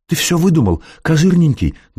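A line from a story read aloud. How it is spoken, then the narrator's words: Trembling babble. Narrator (Russian): дрожащим голосом пролепетала Жюли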